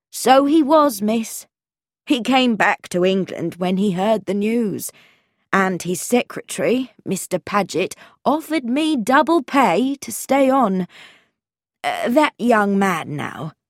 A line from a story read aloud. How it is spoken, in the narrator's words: said Mrs